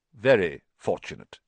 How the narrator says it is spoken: he said stiffly

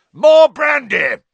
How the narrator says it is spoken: yelled Uncle Vernon, who had gone very white

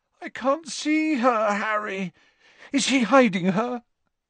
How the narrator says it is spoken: Ron chose this moment to moan

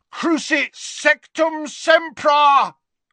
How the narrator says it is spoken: bellowed Harry from the floor

